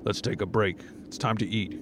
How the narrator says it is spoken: he says

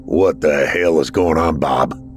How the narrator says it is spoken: spoke with a loud grumble

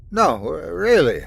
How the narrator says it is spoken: said, wiping my eyes and yawning

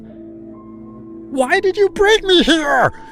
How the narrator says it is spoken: I screamed

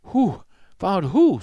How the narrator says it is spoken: said Jack, panting

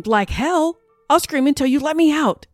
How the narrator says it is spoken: screamed

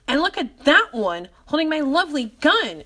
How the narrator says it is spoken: shouted Mr

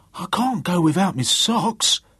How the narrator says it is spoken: cried Willie in alarm

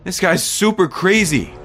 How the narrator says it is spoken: I exclaimed

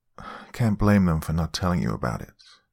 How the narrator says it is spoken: my mother sighed

